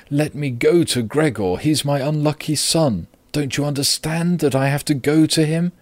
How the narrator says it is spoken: cried

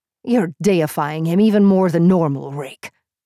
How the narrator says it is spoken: he growled, his deep voice wavering with anger

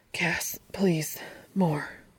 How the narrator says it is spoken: murmurs, breathless and needy

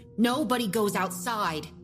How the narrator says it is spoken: she snapped

